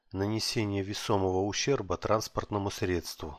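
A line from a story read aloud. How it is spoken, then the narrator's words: Sad, smiling. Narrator (Russian): грустно улыбнулся я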